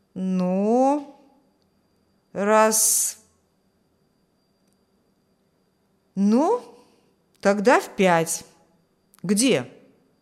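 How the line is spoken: Slow pleasant reply. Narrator (Russian): Мистер Хортон приятно улыбнулся и медленно ответил

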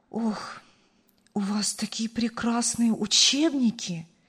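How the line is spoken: Delighted sigh. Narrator (Russian): восторженно вздохнула женщина

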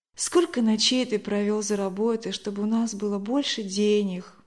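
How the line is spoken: Sad smiling tone. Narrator (Russian): Печально улыбнулась Вера

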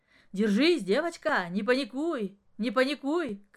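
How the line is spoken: Shouting. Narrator (Russian): кричал он

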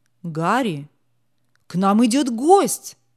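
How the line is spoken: Loud. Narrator (Russian): громко сказал он

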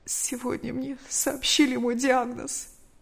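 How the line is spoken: Trembling, fearful, despairing. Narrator (Russian): полные страха и отчаяния, и дрожащим голосом ответила

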